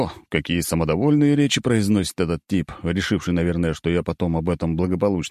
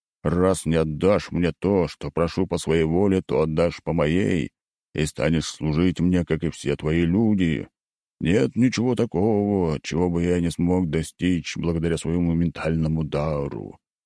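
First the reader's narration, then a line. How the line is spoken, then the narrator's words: Menacing tone. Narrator (Russian): граф начинает грозным тоном приговаривать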